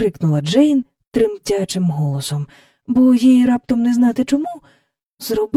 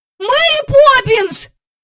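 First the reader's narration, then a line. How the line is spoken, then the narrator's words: Frightened sudden shout. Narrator (Ukrainian): закричав і Майкл, зненацька й собі злякавшись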